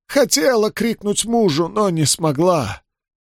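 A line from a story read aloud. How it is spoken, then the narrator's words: Hoarse, after a pause. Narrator (Russian): помолчав, хрипло продолжила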